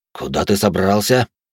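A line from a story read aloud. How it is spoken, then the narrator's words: Surprised exhale. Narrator (Russian): удивленно выдохнул Орик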